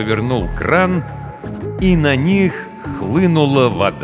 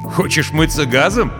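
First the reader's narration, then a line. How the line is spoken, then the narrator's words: Laughing. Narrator (Russian): засмеялся майор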